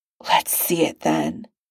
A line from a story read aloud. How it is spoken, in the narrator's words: Tony snarls